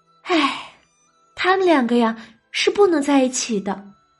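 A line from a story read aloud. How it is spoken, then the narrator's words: Sighing. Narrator (Chinese): 黛玉叹了一声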